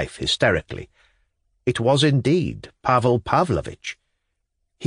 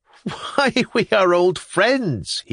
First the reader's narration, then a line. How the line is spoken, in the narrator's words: he cried